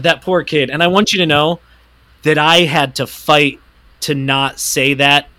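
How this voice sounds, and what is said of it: Usual voice. Nothing is said of it.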